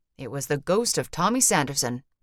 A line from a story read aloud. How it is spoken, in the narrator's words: he said